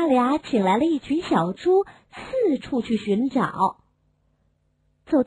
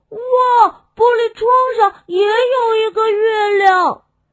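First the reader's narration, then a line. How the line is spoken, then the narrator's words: Excited shout. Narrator (Chinese): 又一只小猪喊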